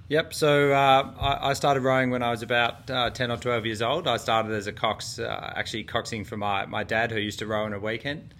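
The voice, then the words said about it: Australian accent. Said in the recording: “I love the Australian accent.”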